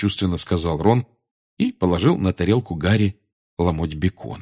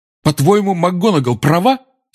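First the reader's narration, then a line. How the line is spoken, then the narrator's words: Angry speech. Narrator (Russian): сердито обратился Гарри к портрету Корнелиуса Фаджа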